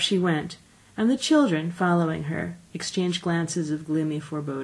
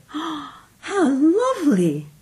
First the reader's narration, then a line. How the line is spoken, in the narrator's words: cried